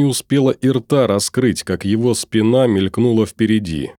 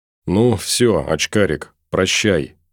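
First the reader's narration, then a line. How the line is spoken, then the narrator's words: Quiet. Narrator (Russian): тихо сказал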